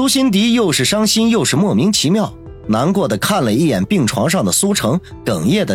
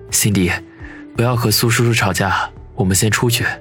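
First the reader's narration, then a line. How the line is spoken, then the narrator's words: Anxious low whisper. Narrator (Chinese): 王宇生怕苏辛迪再说什么，在他耳边低声说道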